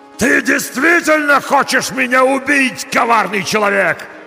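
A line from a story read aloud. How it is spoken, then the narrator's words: Monster yelling. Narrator (Russian): заорал монстр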